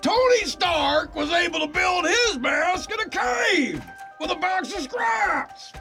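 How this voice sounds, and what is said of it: Imitates another person's voice, shouting. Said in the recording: “If you could hear Jeff Bridges shouting this line ... my Jeff Bridges impression”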